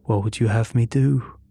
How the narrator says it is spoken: His tone remained steady, his calmness maddening

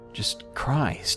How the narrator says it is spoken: I sighed

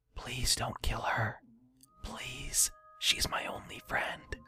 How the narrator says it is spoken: quietly whispered to no one

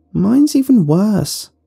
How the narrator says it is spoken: one girl cried out

